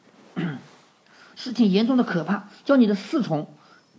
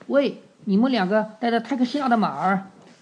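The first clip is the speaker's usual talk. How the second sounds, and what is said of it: Lazy, drawling tone. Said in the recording (Chinese): “用懒洋洋的声调答道”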